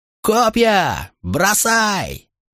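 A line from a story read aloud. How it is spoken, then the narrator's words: Deafening roar over battle. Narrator (Russian): проревел Септим так оглушительно, что его команда на миг перекрыла шум боя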